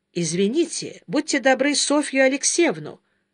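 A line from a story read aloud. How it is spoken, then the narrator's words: Formal request. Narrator (Russian): официальным тоном попросил Сергей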